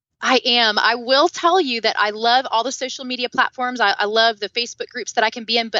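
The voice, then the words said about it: Southern American twang. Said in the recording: “the southern twang in my voice”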